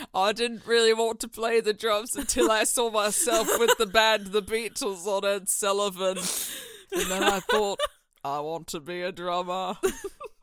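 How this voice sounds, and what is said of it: Imitates another person's voice. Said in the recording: “You almost sound like JFK when you do this accent ... You are sliding so into JFK”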